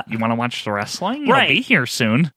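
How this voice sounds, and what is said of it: Imitates another person's voice. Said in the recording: “That's my impression of your mom.”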